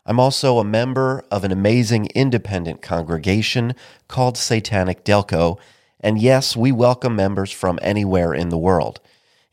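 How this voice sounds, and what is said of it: Sick, ailing voice. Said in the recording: “I am perpetually sick. That's why my voice sounds like this.”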